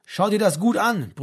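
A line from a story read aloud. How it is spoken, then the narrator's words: Shouting over loud noise. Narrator (German): brüllte Achim in Franks Ohr, denn um sie herum war es jetzt schon sehr laut geworden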